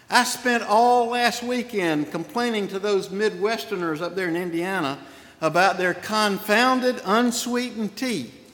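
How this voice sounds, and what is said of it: Southern US accent. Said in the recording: “made me a Southerner, determining my accent”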